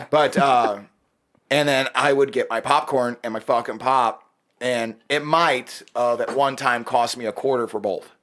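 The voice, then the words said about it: Strong regional American accent. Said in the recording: “You have such a region accent.”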